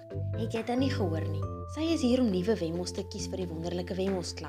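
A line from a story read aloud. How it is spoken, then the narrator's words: Impatient. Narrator (Afrikaans): Die burgemeester sê ongeduldig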